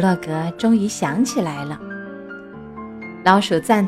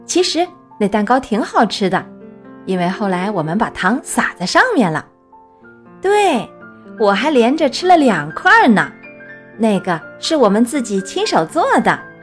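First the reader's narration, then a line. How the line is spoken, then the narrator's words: Laughing. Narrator (Chinese): 老鼠笑着说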